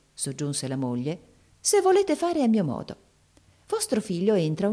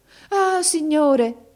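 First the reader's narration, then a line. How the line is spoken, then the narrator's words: Mother exclaiming. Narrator (Italian): esclamò la madre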